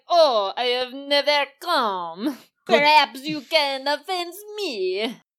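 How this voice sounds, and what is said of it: Bad put-on French accent. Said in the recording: “doing like a bad French accent... what is this voice?”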